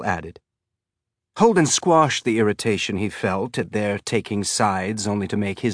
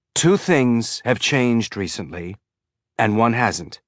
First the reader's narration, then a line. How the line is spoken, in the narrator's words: said, working to keep his tone pleasant